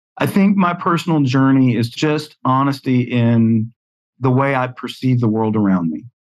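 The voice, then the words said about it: Southern US accent. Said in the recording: “I was raised in the South. You can hear it from my accent”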